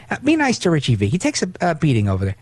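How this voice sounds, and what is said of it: Imitates another person's voice. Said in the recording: “doing my Levin impression.”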